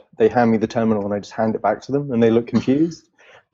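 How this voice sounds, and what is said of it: Elegant sounding accent. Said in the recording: “you have an elegant sounding accent”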